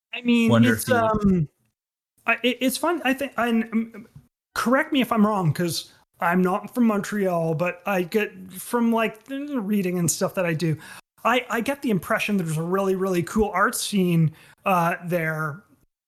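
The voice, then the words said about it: Speaking too loudly, shouting. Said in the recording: “I'm realizing I'm shouting because I turn the music up so much.”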